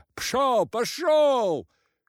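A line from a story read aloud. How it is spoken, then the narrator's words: Shouting. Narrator (Russian): кричал кузнец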